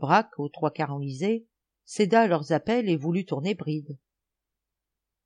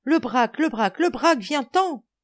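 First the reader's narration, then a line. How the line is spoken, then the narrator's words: Exclaiming, regaining composure. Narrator (French): Grand Gibus, reprit un peu son sang-froid, s'exclamant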